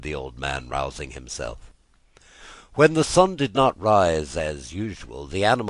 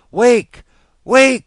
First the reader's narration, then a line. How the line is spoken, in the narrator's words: he wailed